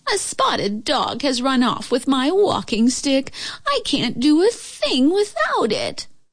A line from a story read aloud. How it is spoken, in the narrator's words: moaned the old lady